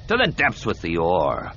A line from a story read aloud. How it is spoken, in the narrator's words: snarled